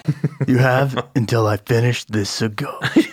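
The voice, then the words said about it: Impression of a movie villain. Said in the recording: “That was my impression of Darkman pretending to be Durant.”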